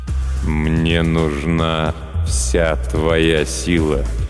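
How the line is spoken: Slow, necromancer. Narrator (Russian): медленно произнес некромант

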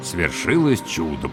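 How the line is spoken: Muttered. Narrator (Russian): пробормотал я

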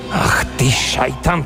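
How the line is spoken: Muttering. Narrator (Russian): пробормотал Радуев

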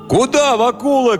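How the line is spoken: Young men shouting. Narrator (Russian): кричали парубки

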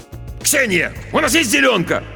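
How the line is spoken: Irritated bark. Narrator (Russian): Раздраженно рявкнул он

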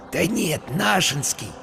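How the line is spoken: Whispered in ear. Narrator (Russian): шепнул ему на ухо Вася

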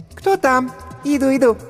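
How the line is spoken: Squeaky female voice. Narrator (Russian): пропищал женский голосок

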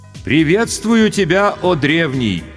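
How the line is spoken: Loud respectful greeting. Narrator (Russian): почтительно и громко произнес старший майор госбезопасности

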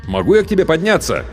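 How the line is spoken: Shouted. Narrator (Russian): крикнул я

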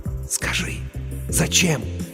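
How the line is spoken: Trembling excited whisper. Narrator (Russian): Дрожа от возбуждения, рулевой прошептал ей

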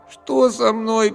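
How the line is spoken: Moaning. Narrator (Russian): простонал я

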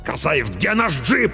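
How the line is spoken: Barking command. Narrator (Russian): рявкнул капитан

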